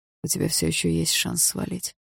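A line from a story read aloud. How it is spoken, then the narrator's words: Hoarse continuation. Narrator (Russian): хрипло продолжал Барс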